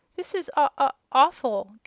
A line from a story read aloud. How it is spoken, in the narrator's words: gasped the little one